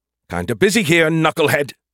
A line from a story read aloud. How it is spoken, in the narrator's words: the beer can snapped